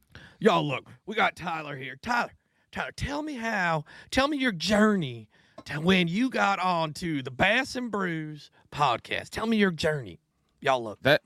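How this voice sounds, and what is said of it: Bad put-on raspy old-woman accent. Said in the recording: “That accent was worse than Smiley's accent of his TikToks ... Somehow your accent turned into your smoking grandma from”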